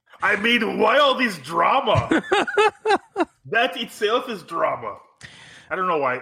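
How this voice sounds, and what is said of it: Put-on Austrian accent imitation. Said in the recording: “I guess that's a Austrian accent.”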